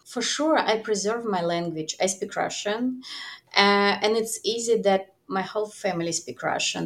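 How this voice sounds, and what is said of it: Foreign-accented English. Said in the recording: “As you could hear, I speak English with the accent. I talk with the accent”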